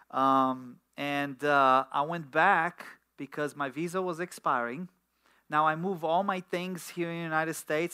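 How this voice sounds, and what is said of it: Romanian-accented English. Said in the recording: “everybody noted that I have an accent ... Romanian”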